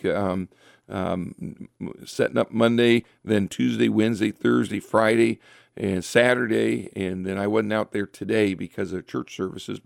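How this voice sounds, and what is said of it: Slightly hoarse voice. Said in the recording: “my voice is a little hoarse tonight ... because I've been talking so much this past week”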